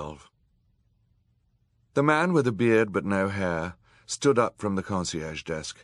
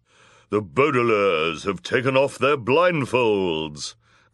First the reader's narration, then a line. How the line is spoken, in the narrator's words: cried the villainous woman in her low, deep voice